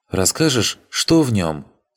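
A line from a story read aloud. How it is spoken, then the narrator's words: Plain. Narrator (Russian): Спросила девушка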